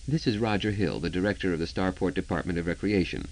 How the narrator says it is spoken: he said smoothly

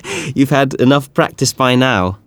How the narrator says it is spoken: Althea laughed

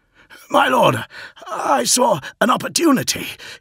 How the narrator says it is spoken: he said between wheezing gasps

